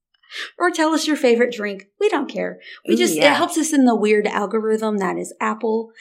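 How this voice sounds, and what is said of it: Southern country accent. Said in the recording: “some Southern voices ... sometimes when I listen to your voice, I'm like, she is country. ... You sound like you have a mouth full of cornbread.”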